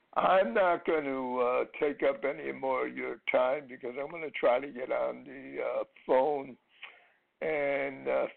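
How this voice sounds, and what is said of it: Bad, poor-sounding voice. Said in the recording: “as you can hear, my voice is never good, but it's especially bad today”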